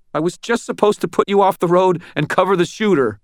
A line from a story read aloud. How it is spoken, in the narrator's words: Bart half screamed